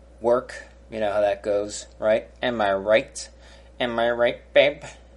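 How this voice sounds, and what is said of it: Imitates another person's voice. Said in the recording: “The terrible Dennis Miller impression.”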